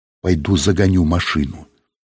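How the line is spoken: Quiet. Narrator (Russian): Сергей тихонько сказал

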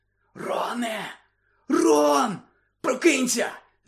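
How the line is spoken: Whisper. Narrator (Ukrainian): зашепотів Гаррі

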